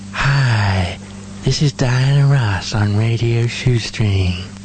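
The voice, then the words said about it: Imitates another person's voice, unconvincingly. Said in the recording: “I can do a really good Diana Ross impersonation ... No, not convincing.”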